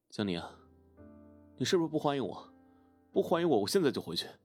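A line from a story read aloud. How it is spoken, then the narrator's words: Aggrieved shout. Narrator (Chinese): 一脸委屈的冲他吼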